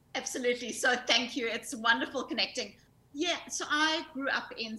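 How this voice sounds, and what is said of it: South African accent. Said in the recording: “your South African accent”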